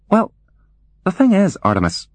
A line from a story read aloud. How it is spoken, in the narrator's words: she said hesitantly